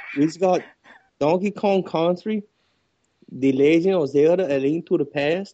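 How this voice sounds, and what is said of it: Poor attempt at Mexican accent. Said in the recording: “You got to do it in a Mexican accent, though. ... That's like a Mexican from Finland.”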